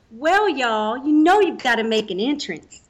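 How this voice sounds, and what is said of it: Put-on Southern accent, pretty good. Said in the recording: “you have to say it in a Southern accent ... Ooh, that was pretty good.”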